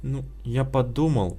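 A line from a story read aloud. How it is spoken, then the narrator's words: Frightened. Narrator (Russian): испуганно сказал Славик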